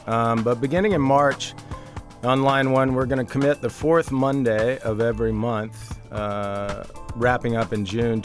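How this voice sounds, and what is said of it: Sick, under-the-weather voice. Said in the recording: “excuse my voice here. I'm under the weather. Everybody at my house is sick.”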